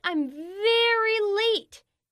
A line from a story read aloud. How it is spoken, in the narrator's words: He shouted